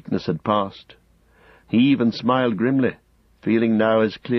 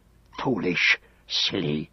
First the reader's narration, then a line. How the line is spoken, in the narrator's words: he hissed